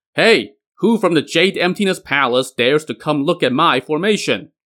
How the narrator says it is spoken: shouting from across the lines

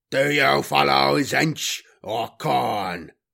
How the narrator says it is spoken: Abadas bellowed in response

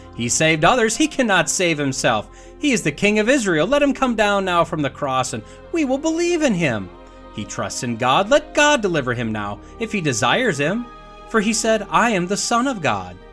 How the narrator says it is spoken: the chief priests with the scribes and elders mocked him, saying

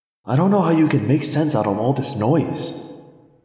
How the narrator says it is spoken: Rachel grumbled

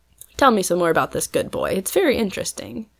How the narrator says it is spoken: say in a conciliatory tone

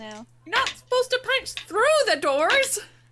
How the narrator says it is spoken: I was gonna shriek at Barry

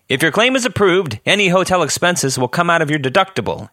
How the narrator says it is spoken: he yelled back

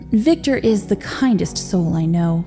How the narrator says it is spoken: she said, smiling softly

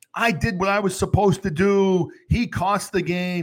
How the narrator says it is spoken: my son threw a huge tantrum, screaming at the top of his lungs

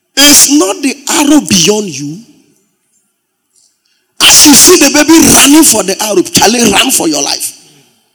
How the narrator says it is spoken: Jonathan cried out after the lad and said

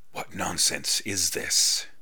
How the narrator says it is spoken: said the woman in a harsh, cold voice

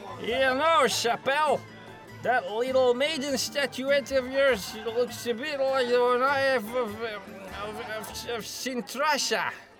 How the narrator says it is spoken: Gustav loudly proclaimed

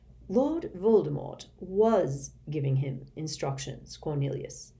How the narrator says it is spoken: Dumbledore said

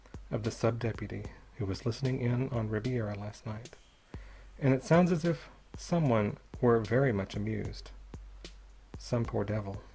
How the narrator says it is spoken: said Bell softly

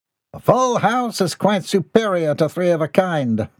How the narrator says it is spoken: Mortimer bellowed from his corner

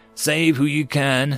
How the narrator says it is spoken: Sergeant ordered, his voice tight

